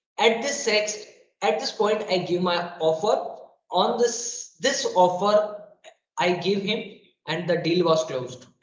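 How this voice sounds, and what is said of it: Hoarse, weakened voice. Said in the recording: “I don't know where my voice is lost”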